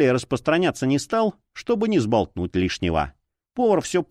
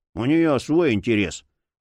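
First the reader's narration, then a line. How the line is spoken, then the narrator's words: Gruff mutter. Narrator (Russian): буркнул Боул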